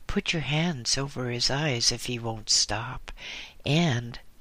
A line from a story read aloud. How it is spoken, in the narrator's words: added gloomily